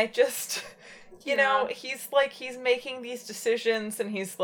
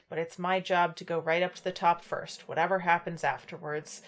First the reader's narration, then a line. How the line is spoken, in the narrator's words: he sighed